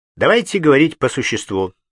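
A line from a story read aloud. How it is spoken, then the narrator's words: Plain. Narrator (Russian): сказал он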